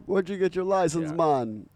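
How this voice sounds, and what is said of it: Put-on Bahamian accent. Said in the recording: “I don't know why you were doing the accent there”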